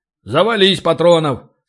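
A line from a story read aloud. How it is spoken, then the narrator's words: Solid booming voice. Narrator (Russian): солидно прогудел Ори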